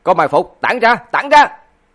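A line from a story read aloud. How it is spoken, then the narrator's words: Loud shout. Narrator (Vietnamese): Lãnh Phong quát lớn một tiếng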